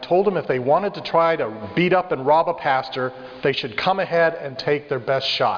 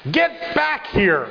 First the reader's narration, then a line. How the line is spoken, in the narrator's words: shouted after them